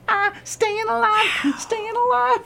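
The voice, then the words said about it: Singing in high falsetto. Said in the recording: “falsetto is the focus here”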